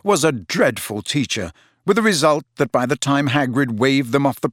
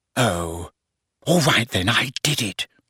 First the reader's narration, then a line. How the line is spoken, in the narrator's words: she whispered